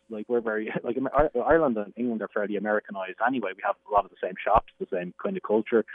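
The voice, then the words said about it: Irish accent. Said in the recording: “you have an absolutely charming Irish accent”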